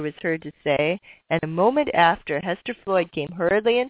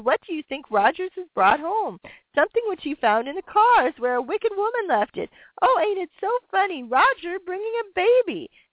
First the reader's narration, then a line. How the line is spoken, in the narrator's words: exclaimed